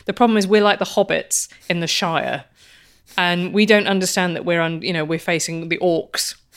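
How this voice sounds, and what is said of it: English accent. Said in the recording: “Here I live in England, as you can tell from my accent.”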